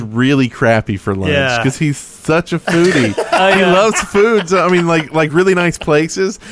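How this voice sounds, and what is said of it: Usual voice. Nothing is said of it.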